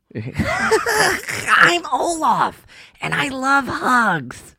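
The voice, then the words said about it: Olaf from Frozen impression. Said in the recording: “That was my Olaf impersonation.”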